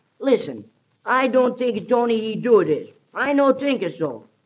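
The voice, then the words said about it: Fake Italian accent. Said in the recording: “it's not hard to fake an Italian accent. Gosh, I can do that myself.”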